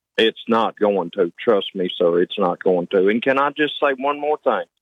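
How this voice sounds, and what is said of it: Rural Southern hillbilly accent. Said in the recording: “Do you think you have an accent? ... Yes, sir. I know I do. I'm a hillbilly.”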